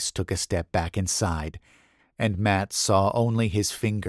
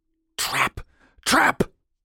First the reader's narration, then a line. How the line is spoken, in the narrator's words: Cougar hissed